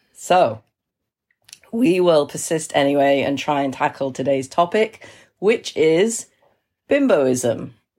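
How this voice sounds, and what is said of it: Sick voice with a heavy cold. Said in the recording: “this is a very ill edition... That's why my voice sounds like it does... a very bad cold”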